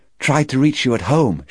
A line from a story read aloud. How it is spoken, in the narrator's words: she said brightly